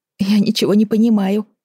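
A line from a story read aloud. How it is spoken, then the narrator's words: Whimpering. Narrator (Russian): захныкала Вера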